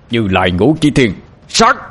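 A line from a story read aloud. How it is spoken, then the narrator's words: Shouted. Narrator (Vietnamese): Ba Lành hét lên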